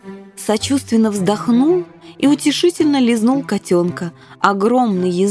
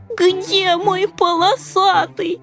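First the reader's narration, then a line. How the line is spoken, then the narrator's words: Tearful whimper. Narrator (Russian): Захныкал рыжий, размазывая слезы лапкой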